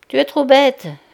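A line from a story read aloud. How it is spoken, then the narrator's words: Laughing. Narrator (French): finit-elle par dire en riant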